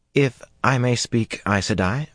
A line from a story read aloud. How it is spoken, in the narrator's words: Rhianna said timidly at last